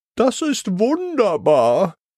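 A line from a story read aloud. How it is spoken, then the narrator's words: Happy call. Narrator (German): ruft Mademoiselle Maus glücklich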